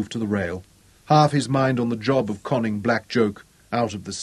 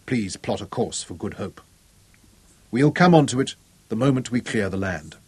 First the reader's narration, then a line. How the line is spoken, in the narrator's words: said quietly